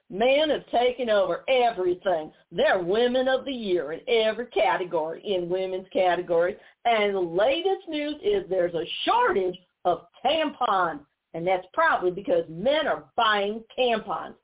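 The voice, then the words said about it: Imitates another person's accent. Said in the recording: “I'm going to try and imitate her, you know, her accent.”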